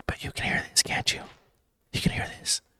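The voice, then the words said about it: Whispering. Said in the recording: “I'm whispering. ... I think this should sound like ASMR.”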